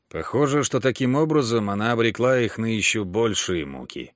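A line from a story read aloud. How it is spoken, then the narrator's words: Sighing. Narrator (Russian): вздохнул Джошуа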